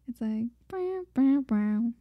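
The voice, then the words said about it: Vocal imitation of a synth sound. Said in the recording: “your synth impersonation”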